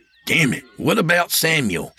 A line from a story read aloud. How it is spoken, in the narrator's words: Sam snapped